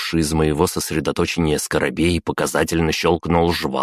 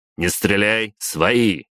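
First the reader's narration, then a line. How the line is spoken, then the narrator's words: Barked. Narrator (Russian): рявкнул я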